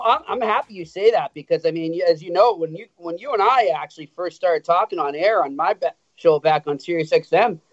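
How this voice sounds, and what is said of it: Boston accent with Montreal Irish tinge. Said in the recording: “nice thick Boston accent ... It's still there. Maybe not as thick as Hags, but it's still there. ... It's a combination of Boston and the Irish section of Montreal ... You can hear both of it”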